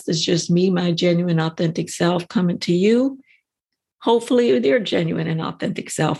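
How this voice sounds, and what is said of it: Scratchy voice. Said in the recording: “My voice is kind of scratchy. It's not exactly what I would love it to be”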